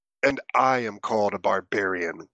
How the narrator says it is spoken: grunted Grignir in a disgusted tone

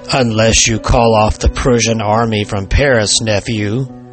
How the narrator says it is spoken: said the spirit

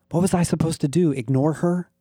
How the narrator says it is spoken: I whispered in a panic

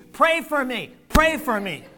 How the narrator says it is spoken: the little one called loudly to the congregation

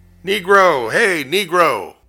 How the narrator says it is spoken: he started shouting

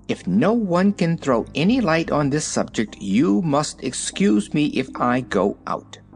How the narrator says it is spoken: a chafing dish exclaimed irritably

